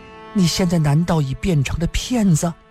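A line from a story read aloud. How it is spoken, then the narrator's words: Trembling voice. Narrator (Chinese): 林诗音…颤声地说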